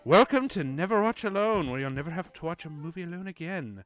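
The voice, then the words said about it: Put-on Irish accent. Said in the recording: “I'm starting with an Irish accent ... I'm not doing the accent anymore.”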